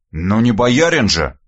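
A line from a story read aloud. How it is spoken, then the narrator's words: Wry snort. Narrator (Russian): хмыкнул я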